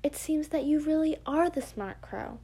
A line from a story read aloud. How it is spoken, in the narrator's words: the fox exclaimed with a grin